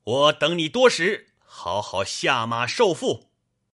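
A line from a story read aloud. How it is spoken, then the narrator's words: Stern loud shout. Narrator (Chinese): 尉迟孙立，厉声高叫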